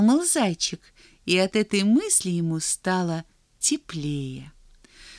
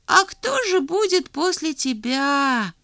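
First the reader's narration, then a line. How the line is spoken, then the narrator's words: Sad little hare's question. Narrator (Russian): печально спросил зайчик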